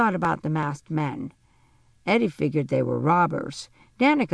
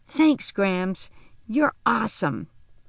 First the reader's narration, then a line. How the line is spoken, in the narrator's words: exclaimed